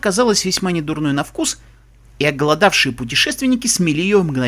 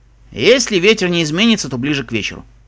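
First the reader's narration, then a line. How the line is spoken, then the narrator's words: Calm, unperturbed. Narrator (Russian): Шон хмыкнул, невозмутимо сказал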